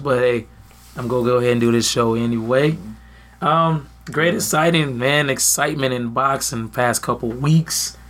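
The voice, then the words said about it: Slightly hoarse voice. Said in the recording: “Excuse my voice. I'm a little hoarse ... his throat needs some mending”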